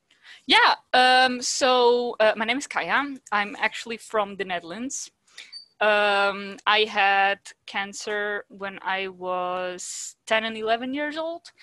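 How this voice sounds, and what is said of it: Foreign accent, from the Netherlands. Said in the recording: “obviously I can detect an accent”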